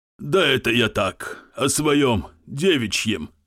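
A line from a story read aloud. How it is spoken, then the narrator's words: Snorting. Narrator (Russian): фыркнул Фелькерзам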